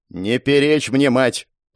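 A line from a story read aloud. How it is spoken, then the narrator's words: Growling. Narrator (Russian): прорычал Ингар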